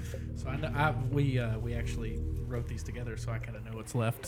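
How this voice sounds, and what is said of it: Usual voice. Nothing is said of it.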